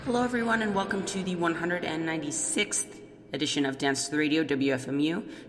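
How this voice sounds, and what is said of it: Hoarse, fading voice. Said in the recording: “I'm kind of losing my voice”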